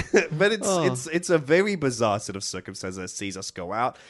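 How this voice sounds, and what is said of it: Usual voice. Nothing is said of it.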